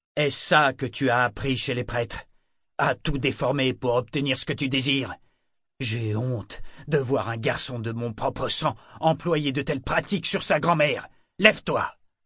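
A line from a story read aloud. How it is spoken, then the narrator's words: Barking. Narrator (French): aboya-t-il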